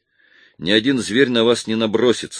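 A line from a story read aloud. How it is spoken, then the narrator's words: Calm. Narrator (Russian): сказал я спокойно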